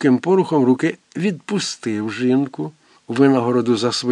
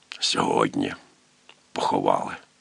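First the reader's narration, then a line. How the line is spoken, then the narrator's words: Whispered. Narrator (Ukrainian): Фішерле прошепотів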